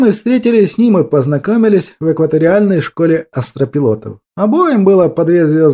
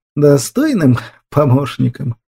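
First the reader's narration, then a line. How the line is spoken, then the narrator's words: Sad, drawn-out. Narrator (Russian): повторил правитель печально и протяжно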